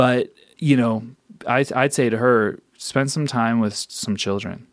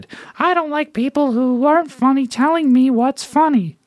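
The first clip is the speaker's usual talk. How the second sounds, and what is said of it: Imitates another person's voice. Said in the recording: “that's an impression of, a very good impression of her.”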